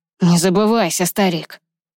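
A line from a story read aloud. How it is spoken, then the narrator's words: Growl. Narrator (Russian): прорычал Ронан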